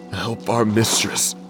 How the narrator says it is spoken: Miles moaned

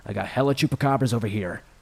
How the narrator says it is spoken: Dan shouted, which would have sounded ridiculous had he not been serious

